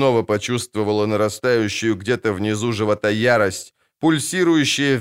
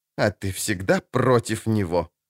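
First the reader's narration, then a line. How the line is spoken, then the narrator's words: Angry smirk. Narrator (Russian): зло усмехнулась жрица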